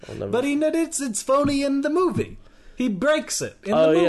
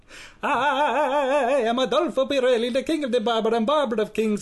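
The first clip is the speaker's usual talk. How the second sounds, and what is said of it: Phony put-on Italian accent. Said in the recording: “That phony baloney Italian accent.”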